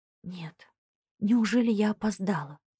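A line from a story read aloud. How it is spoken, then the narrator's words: Whisper. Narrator (Russian): прошептала я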